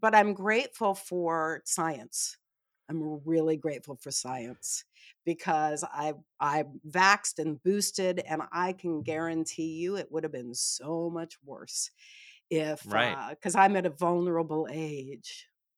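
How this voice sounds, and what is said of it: Slightly raspy, tired voice. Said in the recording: “I'm a little tired, a little cough ... Our listeners might hear it in my voice that there's a little bit of raspiness”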